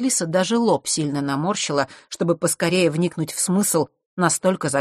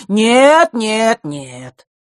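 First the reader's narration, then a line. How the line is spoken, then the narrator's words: Loud protest. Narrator (Russian): громко запротестовал Эфларус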